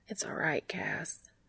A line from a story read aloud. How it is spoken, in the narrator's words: Dean says softly